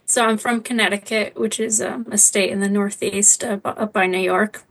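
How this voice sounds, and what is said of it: American accent. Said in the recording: “I didn't hear a Scottish accent ... as you picked up from my accent, I'm not Scottish, I'm American”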